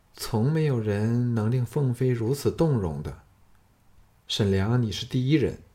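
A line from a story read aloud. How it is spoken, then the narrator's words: Low voice. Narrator (Chinese): 董淑贞靠近的酥胸差点碰上他的手臂，这才低声说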